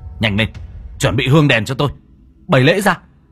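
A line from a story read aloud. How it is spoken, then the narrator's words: Barking. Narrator (Vietnamese): Cậu Tẩy quát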